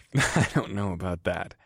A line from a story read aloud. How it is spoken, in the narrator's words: I chuckled